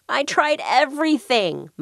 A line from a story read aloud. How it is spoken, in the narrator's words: moaned Mr